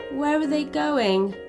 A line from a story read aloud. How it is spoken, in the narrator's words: asked Mia sadly